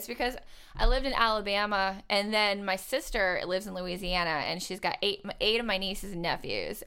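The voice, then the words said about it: Light Southern American twang. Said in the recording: “You sound like you have a southern accent. ... When I get real laid back and I'm having fun, like a little bit of a twang comes out.”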